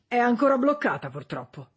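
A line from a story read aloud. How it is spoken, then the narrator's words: Plain. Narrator (Italian): disse Shop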